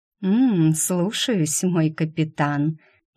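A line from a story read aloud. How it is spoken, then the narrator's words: Purring. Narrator (Russian): мурлыкнула Нинья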